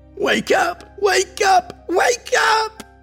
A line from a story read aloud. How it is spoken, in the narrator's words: His voice screamed inside his head